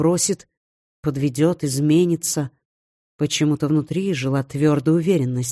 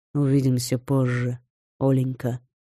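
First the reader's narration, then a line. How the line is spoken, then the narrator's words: Soft, warm. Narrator (Russian): мягко и тепло произнес Вархар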